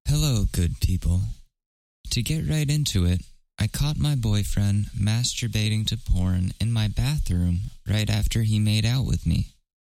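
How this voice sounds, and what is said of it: Nice storyteller narrator voice. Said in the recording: “Should I do it in a nice narrator voice?”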